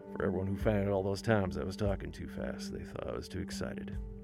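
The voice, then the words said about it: Colorado country twang, drawl. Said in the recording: “my twang has come back. My Colorado drawl,”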